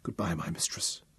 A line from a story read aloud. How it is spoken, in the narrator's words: whispered